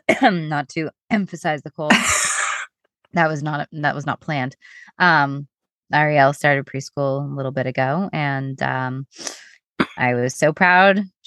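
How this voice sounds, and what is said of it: Congested voice with a cold. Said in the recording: “as everybody can hear from my voice, I've gotten the dreaded cold”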